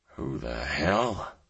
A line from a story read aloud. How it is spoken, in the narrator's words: I muttered